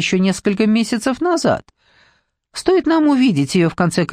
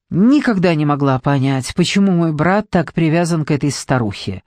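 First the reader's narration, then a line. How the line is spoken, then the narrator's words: Sharp. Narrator (Russian): резко сказала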